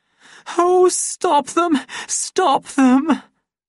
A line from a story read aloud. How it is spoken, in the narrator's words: she begged